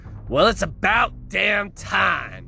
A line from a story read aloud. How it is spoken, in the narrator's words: Leslie shouted